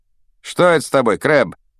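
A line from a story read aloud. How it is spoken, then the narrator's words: Irritated. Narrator (Russian): раздраженно покосился на него Малфой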